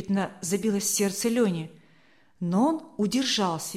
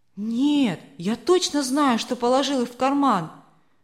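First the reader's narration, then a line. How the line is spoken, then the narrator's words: Bitter sigh. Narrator (Russian): горько вздохнул Равиль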